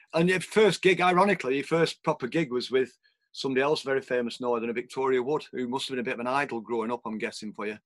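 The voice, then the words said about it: Northern English accent. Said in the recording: “I'm a fan of the Northern accent now. I used to hate my voice ... oh, you've got a fantastic accent.”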